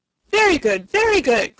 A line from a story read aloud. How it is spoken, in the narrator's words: cried Rugadoo, rubbing his hands gleefully together